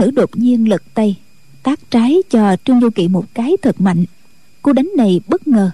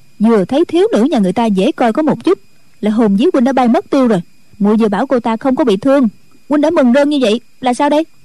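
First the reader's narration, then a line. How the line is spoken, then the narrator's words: Village girl, sulky. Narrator (Vietnamese): Thôn nữ hậm hực nói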